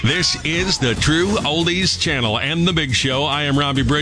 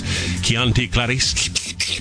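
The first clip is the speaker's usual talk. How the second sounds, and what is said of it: Poor Hannibal Lecter impression. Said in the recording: “terrible Hannibal Lecter impression.”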